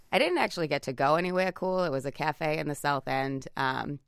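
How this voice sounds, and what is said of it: Boston accent. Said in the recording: “her Boston accent”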